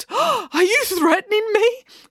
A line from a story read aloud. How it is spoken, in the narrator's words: He whimpered, his whole body trembling